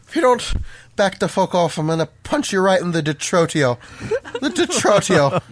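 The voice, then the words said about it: Put-on Irish accent. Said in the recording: “In your best Irish accent.”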